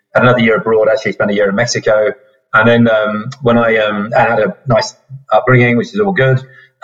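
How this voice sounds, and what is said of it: British accent. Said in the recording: “as you can hear from the accent, I grew up in the UK”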